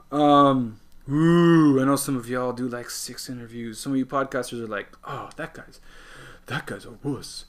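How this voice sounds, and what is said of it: Dry, parched, tired voice. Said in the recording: “My voice is a little parched and I need some water”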